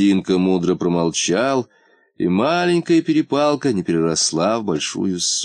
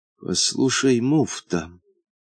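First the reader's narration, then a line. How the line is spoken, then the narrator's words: Quiet. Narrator (Russian): сказал он тихо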